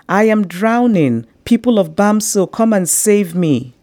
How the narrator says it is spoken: From the backyard, Mami Ama screamed

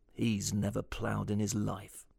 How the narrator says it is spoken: Ken muttered under his breath

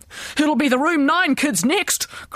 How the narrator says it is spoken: cried the principal

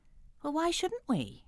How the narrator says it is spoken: Julie piped up

